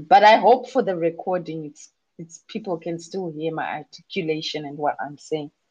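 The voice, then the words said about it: Worn-out, strained, nearly lost voice. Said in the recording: “I think you can hear it in my voice that I'm at the pinnacle of having chikosoro and chikosoro after chikosoro. My voice is really done at the moment ... my voice is not actually at the best ... I lost my voice a couple of days ago”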